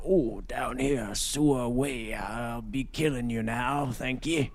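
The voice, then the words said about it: Mocking Southern Georgia accent. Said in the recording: “you got a kind of a cool accent... making fun of my accent... I got a regal accent from the great state of Georgia”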